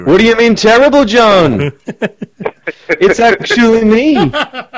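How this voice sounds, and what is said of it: Poor imitation of another person's voice. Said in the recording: “terrible Paul McCartney impersonation ... Oh, that's tremendously awful.”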